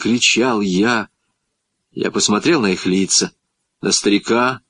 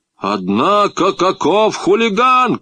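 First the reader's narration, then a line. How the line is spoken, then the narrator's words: Fat man shouting. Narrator (Russian): крикнул толстяк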